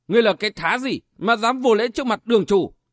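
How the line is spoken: Shout. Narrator (Vietnamese): quát lên

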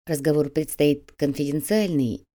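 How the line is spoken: Quiet, confidential tone. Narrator (Russian): тихо произнес секретарь

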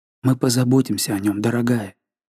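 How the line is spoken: Barely audible whisper. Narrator (Russian): Жанна едва слышно шепнула на ухо

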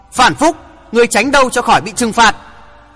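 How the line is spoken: Loud shout. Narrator (Vietnamese): Hoàng Thượng Chí hét to

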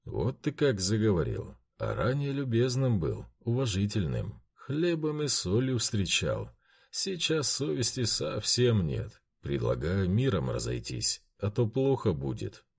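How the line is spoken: Calm leader's declaration. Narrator (Russian): спокойно заявил старший ватаги

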